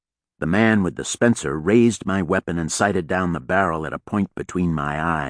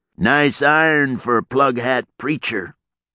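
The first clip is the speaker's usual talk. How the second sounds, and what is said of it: Loud, flat West Texas accent. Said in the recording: “His voice carried above the wind with the ease of someone accustomed to raising it, with a West Texas accent as flat as the panhandle.”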